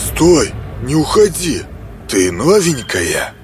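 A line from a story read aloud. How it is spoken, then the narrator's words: Near hiss. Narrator (Russian): чуть ли не прошипел он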